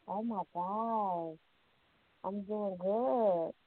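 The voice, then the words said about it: Muffled voice. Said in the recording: “You sound a little muffled.”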